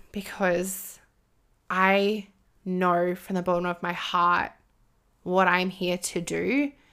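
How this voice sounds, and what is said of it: Emotional, moved voice. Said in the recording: “getting emotional”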